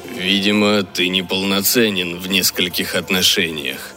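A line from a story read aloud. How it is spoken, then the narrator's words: Grumbling under breath. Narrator (Russian): пробурчал Джин себе под нос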